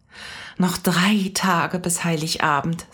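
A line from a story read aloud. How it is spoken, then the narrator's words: Contented sigh. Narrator (German): sagte seufzte wohlig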